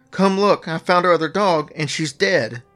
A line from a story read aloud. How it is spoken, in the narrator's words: Jerry cried